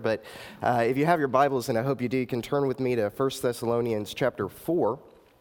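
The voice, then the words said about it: Hoarse, partly lost voice. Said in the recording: “my voice is a little gone this morning. I've been sick all week”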